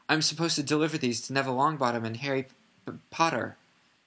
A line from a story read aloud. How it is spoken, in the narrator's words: she faltered, turned scarlet